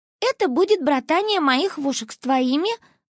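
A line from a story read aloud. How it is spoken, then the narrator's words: Joyful. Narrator (Russian): радостно добавила она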